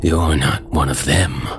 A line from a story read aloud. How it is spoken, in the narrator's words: he growled, as if it were some sort of shocking revelation